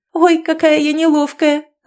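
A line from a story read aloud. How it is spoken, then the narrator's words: Young woman laughing. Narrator (Russian): рассмеялась темноволосая девица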